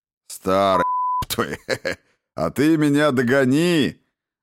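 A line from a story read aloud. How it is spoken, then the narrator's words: Laughing, teasing. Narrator (Russian): засмеялся Сан Саныч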